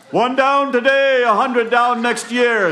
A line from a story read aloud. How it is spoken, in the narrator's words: Jack yells out to the funeral party